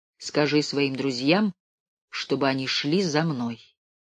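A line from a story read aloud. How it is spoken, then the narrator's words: Calm, broken German, stout man. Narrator (Russian): небольшого толстого человека, который на ломаном немецком языке спокойно говорил ей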